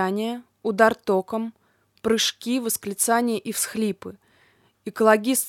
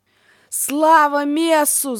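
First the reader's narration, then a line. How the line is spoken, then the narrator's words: Prisoners yelling together. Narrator (Russian): заорали заключенные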